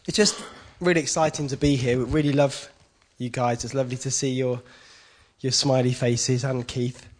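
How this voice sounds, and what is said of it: Deeper than usual, cold-affected voice. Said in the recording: “I've got a bit of a summer cold ... my voice is a bit deeper than normal, I think. Voice for radio tonight.”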